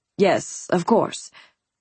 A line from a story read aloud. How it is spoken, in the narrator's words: Paxton muttered